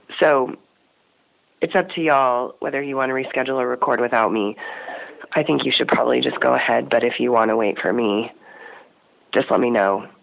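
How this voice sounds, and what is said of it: Hoarse, nearly lost voice. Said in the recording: “this is what my voice sounds like. I have a cold ... obviously I've lost my voice ... I can't sound like this on the air.”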